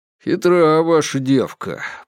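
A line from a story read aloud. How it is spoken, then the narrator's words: Grumble. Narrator (Russian): проворчал старший из оперативников Перегорского, Степаныч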